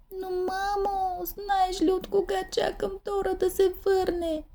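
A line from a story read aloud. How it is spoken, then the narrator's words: Child whimpering. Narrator (Bulgarian): проплака момиченцето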